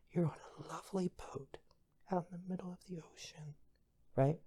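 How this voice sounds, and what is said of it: Soft ASMR-style voice. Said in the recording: “one of those AMRP things where they talk like this”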